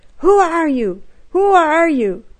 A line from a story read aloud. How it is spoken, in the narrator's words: the woman screamed